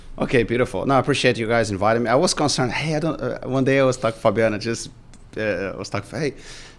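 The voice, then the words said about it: Speaks with a noticeable foreign accent. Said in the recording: “my accent, I don't know if you noticed”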